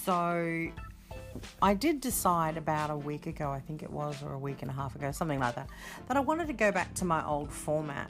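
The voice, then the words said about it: Australian accent. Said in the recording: “I'm coming from, in case you didn't know, Brisbane in the land down under, which is Australia ... you can hear a bit of the accent”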